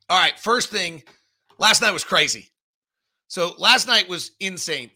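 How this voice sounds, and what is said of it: Slightly hoarse, ragged voice. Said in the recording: “My voice is a little ragged.”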